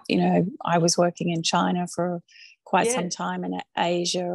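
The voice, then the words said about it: Full Australian accent. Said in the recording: “Your full Australian accent's still there.”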